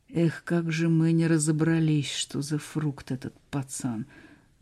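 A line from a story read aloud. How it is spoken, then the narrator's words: Bitter sigh. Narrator (Russian): с горечью вздохнул диверсант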